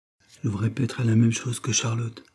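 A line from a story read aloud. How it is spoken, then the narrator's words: Murmur. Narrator (French): murmura-t-il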